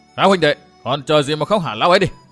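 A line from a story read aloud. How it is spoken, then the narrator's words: Loud shout. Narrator (Vietnamese): hắn cao giọng quát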